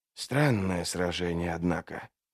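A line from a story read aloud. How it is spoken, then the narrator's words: Mumbled. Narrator (Russian): пробормотал Трясучка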